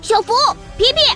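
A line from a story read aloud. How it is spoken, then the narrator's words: Child shouting. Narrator (Chinese): 龙王娃娃大喊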